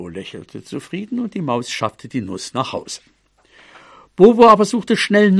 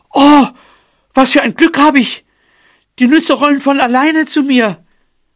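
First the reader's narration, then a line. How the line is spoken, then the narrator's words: Mouse calling out. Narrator (German): Die Maus rief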